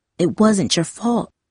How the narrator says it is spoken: Darcy whispered

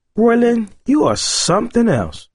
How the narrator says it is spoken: exclaimed

